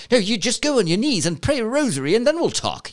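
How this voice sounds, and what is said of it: Put-on accent. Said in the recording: “I don't know why I do that accent”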